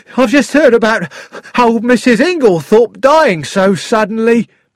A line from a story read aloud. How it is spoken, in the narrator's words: he said excitedly